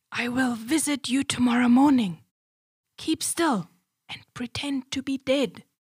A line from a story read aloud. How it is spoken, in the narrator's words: She whispered to her husband